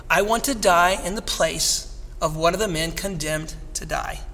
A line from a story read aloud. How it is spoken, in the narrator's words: Kolbe responded softly